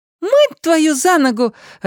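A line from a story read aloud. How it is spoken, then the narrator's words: Joyful chiming in. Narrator (Russian): радостно подхватил сын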